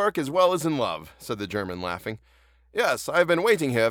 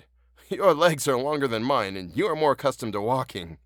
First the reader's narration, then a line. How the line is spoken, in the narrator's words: said he, laughing